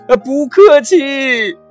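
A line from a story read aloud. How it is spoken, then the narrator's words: Loud reply. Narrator (Chinese): 威利大声的回答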